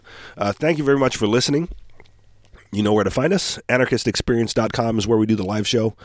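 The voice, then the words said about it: Sick, under-the-weather voice. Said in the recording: “I'm feeling under the weather ... my apologies for being a little bit under the weather. So pardon my voice.”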